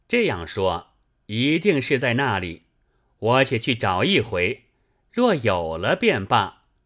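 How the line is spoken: Laughing. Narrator (Chinese): 那长史官笑道

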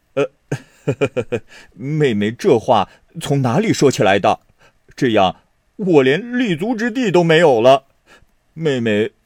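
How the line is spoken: Hasty, laughing. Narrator (Chinese): 薛蟠连忙笑道

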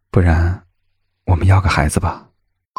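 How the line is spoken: Soft question. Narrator (Chinese): 谢景亭柔声的询问

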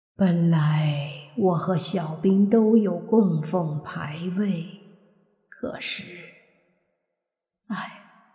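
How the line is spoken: Old woman, sighing. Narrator (Chinese): 那老太太叹了口气，说道

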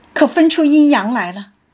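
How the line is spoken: Laughing. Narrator (Chinese): 翠缕笑道

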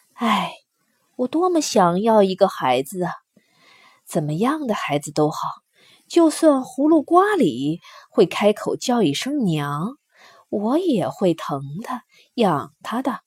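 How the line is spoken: Sighing woman. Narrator (Chinese): 胡夫人也叹口气说

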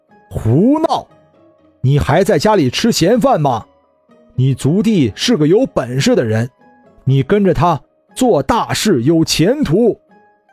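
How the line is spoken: Loud angry scolding. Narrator (Chinese): 李有胜大声冲李珍品骂道

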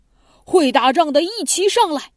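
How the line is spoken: Loud shouting strongman. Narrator (Chinese): 公孙支就是当初使大锄头锄地的那位大力士，大声嚷嚷着说

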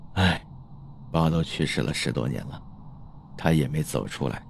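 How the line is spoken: Long sigh. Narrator (Chinese): 小盛长叹了口气说

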